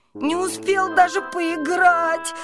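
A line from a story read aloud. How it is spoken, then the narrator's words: Whimpering. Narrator (Russian): хныкал он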